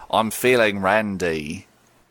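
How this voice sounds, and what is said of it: Put-on Cockney accent. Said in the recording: “You can do a Cockney accent.”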